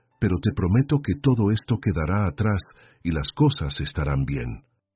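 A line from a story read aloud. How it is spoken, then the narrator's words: Low voice. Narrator (Spanish): dijo con la voz baja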